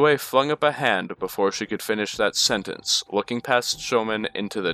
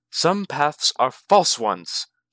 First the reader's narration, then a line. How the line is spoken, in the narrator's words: Shoman snapped